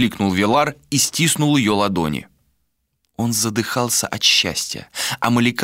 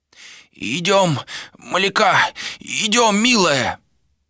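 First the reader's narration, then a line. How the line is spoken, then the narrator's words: Hoarse wheeze. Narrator (Russian): просипел Мун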